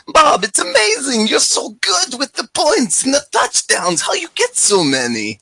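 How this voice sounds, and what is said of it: Imitated voice with Polish accent. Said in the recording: “I should have done it in my normal ... voice, though ... Is much that a like, Polish accent? ... Oh, yeah, that's my Polish accent. ... Very accurate. ... It's not good.”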